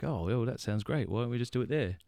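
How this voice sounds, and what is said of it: Put-on English accent. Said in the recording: “That's an English accent ... doing.”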